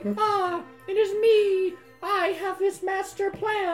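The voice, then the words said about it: High-pitched character voice. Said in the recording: “I want the high voice,”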